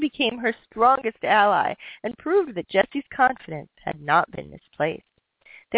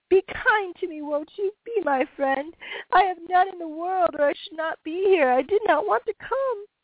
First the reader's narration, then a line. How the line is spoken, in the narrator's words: with a passionate cry, sobbed piteously